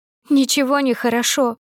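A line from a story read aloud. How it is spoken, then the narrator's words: Muffled sob. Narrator (Russian): всхлипнула мне в шею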